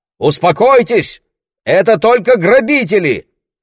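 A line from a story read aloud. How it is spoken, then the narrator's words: Shouted. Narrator (Russian): выкрикнул Лесли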